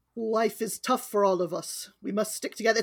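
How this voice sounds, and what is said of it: Failed Russian accent sounding Irish. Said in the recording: “I'm going to attempt a Russian accent. We don't know what it'll come out as. ... It's Irish again! ... Irish Rasputin.”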